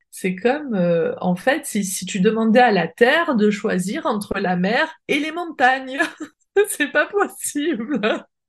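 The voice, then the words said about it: Sing-song Marseille accent. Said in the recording (French): “avec l'accent marseillais ... C'est chantant.”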